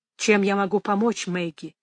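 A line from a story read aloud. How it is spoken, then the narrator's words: Quiet question. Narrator (Russian): тихо спросил Ральф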